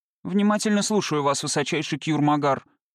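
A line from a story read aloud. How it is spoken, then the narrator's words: Dry. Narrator (Russian): сухо произнес Лоукрот Микровиш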